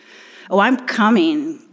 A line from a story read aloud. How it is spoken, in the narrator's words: Clarence spat